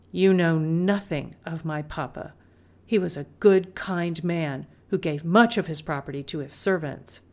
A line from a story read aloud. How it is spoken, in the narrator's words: Through gritted teeth, she said